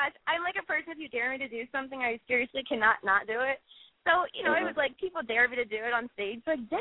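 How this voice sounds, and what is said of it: Usual voice. Nothing is said of it.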